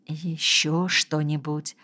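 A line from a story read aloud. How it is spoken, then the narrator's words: Whispered question. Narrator (Russian): шепотом спросил врач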